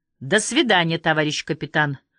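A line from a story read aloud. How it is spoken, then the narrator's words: Loud. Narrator (Russian): громко сказал Васильев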